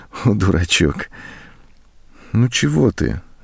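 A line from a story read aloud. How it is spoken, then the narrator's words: Tender affectionate voice. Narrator (Russian): ласково сказала она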